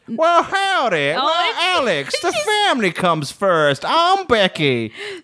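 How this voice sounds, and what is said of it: Put-on American southern drawl. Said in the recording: “how much of a southern drawl the mum had ... say this phrase in the mum's accent”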